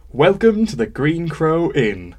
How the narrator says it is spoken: shouted from the floor

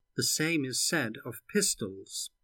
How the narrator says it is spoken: the other retorted calmly

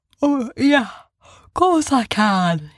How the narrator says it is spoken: said, still yawning

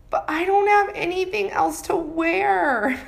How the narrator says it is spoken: I whined back

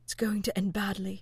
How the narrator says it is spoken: John whispered, frowning

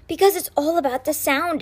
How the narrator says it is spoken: exclaimed Sticky

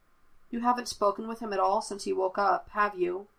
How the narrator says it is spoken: Mace asked

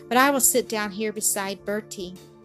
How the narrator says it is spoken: Nell answered with a sigh

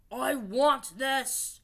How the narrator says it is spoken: He roared

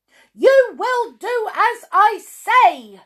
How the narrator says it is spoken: shouted Miss Bossy

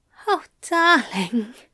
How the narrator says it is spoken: he sighed against the hot flesh of Crowley's throat

